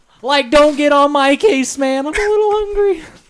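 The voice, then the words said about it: Shaggy cartoon character voice. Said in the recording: “my Shaggy impression ... It's pretty good ... It honestly got good out of nowhere”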